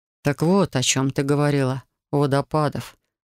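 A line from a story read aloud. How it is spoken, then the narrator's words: Dull muffled voice. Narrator (Russian): произнес он глухо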